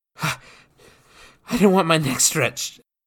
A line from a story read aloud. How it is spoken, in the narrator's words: Jacques explained between breaths